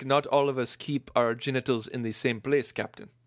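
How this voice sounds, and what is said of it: Put-on accent imitating Iman's character. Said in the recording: “Nice accent.”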